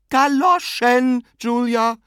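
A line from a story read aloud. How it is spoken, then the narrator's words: Sister's exclamation. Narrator (German): rief ihre Schwester aus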